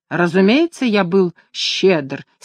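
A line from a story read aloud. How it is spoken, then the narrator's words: Angry reply. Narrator (Russian): сердито ответил лорд Меридан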